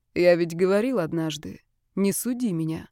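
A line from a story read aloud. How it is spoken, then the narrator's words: Unexpectedly calm. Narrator (Russian): неожиданно спокойно сказал Ярослав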